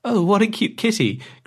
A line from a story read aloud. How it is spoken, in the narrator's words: cried the girl